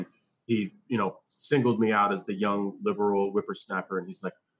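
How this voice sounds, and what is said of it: Usual voice. Nothing is said of it.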